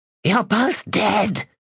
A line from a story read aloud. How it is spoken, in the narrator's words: hissed